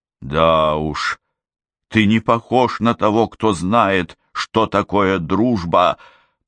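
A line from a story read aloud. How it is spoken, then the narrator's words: Growl. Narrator (Russian): прорычала я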